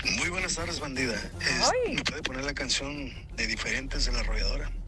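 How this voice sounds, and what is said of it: Radio announcer-like voice. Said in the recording (Spanish): “tiene voz de locutor”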